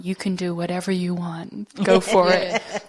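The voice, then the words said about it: Put-on American accent. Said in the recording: “I like the way you put that American accent in there just then.”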